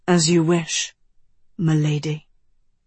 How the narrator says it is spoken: he said softly

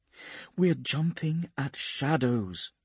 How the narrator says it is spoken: she says calmly

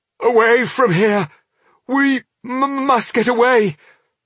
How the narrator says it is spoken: he stammered

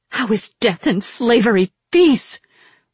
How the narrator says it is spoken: Rin spat

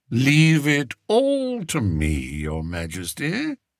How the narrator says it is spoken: said Spittleworth soothingly

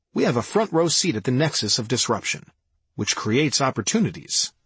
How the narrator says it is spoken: Norman said

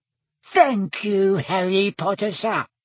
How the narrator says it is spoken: squeaked Dobby happily

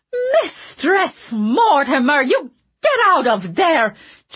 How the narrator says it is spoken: Jules shouted angrily

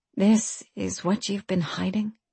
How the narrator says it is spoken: she asked quietly

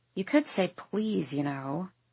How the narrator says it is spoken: I mumble under my breath

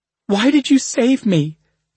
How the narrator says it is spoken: the dark Asha cried

